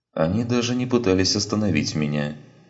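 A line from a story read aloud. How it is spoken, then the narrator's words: Calm voice. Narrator (Russian): ответил Сарен спокойным голосом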